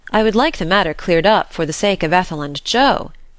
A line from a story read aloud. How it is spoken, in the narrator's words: said Mr